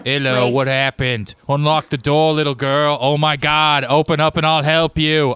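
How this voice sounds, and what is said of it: Cartoon mayor character voice. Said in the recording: “I don't know why instead I did the mayor from The Simpsons.”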